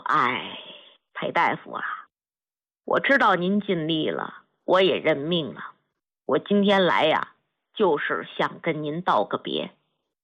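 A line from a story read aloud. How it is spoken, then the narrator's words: Sighing, resigned old man. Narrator (Chinese): 老兵叹了口气，说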